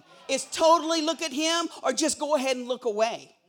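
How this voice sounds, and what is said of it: Loud, forceful preaching voice. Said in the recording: “Do I sound mad? I am not mad. I promise. I'm loud, but I'm not mad.”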